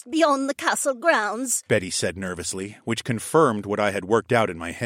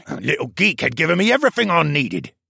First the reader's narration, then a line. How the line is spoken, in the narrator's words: Baxter scoffed